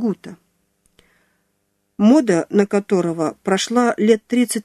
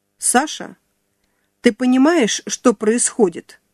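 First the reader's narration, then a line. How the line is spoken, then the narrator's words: Stern question. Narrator (Russian): строго вопросила она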